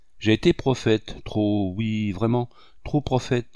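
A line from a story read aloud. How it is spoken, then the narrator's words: Stammered. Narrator (French): balbutia-t-il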